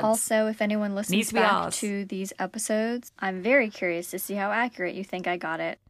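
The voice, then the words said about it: American speaking in put-on British accent. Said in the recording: “Yes, I will be speaking in a British accent. And yes, I am American.”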